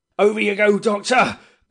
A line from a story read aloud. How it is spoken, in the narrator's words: he yelled at me